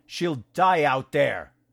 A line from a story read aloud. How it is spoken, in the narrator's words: shouted